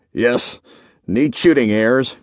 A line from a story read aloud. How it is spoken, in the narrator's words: grunted Horner